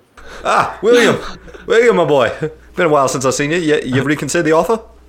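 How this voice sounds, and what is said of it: Terrible put-on accent. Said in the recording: “who's speaking in that terrible accent?”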